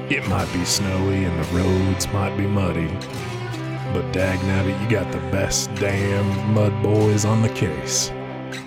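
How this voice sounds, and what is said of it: Truck commercial voiceover announcer voice. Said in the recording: “did that voice ... mid-2000s Ford truck commercials ... doing the voiceover of the Ford truck salesman guy on TV”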